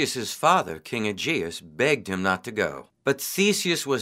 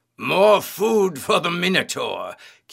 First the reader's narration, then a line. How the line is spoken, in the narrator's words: said with a great laugh